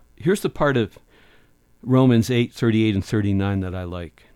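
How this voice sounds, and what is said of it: Usual voice. Nothing is said of it.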